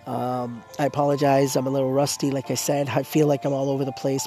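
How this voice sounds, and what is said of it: Hoarse, failing voice. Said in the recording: “My voice, once again, I apologize. You know that I'm losing my voice.”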